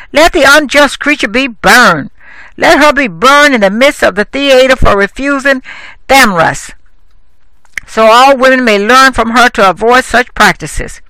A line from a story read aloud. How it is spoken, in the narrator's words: Thecla, her mother, cried out